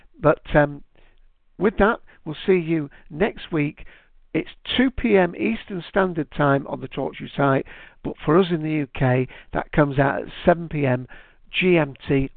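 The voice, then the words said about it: Manchester English accent. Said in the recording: “I'm from Manchester. If you haven't guessed with my accent”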